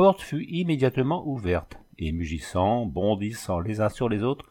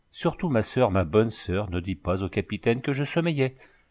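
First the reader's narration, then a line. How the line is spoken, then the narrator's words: Strangely softened tone. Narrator (French): repartit la sentinelle d'un ton singulièrement radouci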